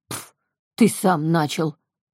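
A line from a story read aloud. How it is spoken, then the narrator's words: Growled. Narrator (Russian): Ворс рыкнул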